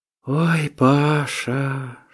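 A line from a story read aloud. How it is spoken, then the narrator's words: Deep long sigh. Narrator (Russian): Шура глубоко, длинно вздохнула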